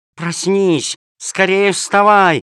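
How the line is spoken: Shouting. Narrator (Russian): кричала она

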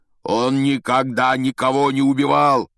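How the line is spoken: Shouting. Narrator (Russian): закричал высокий парень

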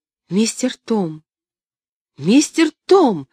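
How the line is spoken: Shouting. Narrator (Russian): кричала она

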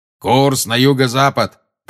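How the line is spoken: Thundering voice. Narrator (Russian): прогремел Грюм

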